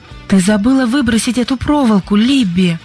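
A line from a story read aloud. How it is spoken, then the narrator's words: Exclaiming. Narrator (Russian): воскликнула Сьюзен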